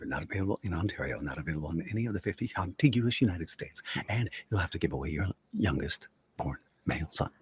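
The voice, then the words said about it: Very fast disclaimer-style talking. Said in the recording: “you do that fast voice”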